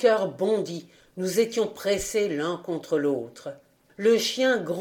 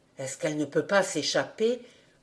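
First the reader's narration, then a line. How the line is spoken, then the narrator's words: Quiet question. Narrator (French): demandai-je tout bas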